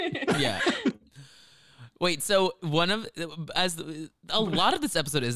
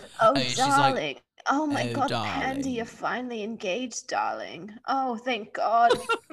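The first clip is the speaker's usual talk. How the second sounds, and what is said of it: British accent with vocal fry. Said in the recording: “the British ... Vocal fry ... No, that sounds like Ken.”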